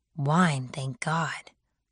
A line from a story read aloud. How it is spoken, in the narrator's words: I whispered to him